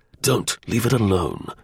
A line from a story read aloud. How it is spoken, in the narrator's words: Ormiston snarled